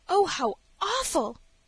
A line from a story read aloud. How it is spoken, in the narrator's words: she gasped, and turned pale with excitement